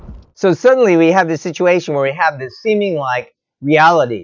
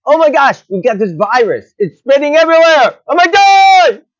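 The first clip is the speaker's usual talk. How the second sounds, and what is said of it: Yelling. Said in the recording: “sorry for yelling there a bit”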